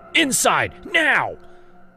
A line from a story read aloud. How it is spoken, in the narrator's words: screamed again